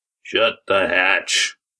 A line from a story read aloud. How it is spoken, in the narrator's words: growled a voice from one of the tables